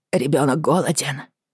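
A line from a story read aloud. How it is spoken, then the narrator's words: Cracked whisper. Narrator (Russian): натреснуто прошептала Бриана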